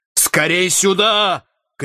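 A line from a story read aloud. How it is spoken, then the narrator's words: Shout. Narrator (Russian): крикнул Энгельбрект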